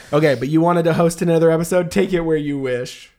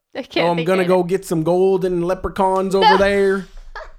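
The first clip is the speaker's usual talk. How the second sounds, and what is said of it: Bad Irish accent sounding Southern. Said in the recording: “Irish... That's so bad... That's southern.”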